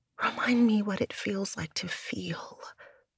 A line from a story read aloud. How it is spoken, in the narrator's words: Ciel whispered